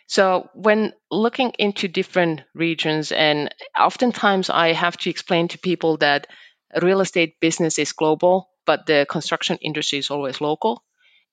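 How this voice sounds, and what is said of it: Slight foreign accent. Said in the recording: “the audience can already hear that I have a little bit of accent when I speak”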